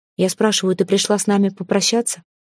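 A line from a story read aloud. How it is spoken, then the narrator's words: Even, restrained calm. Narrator (Russian): Говорил Лирел очень ровно и спокойно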